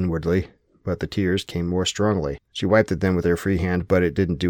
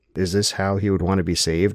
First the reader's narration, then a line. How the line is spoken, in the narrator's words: asked the voice